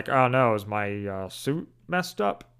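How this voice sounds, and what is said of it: Bad George Lucas impression. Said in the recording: “I think that was a George Lucas. It was a bad impression.”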